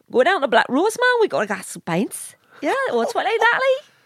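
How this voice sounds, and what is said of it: Put-on Newcastle Geordie accent. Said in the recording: “I've got a perfect Newcastle accent ... I can talk in Newcastle, no problem ... I talk in a Newcastle accent”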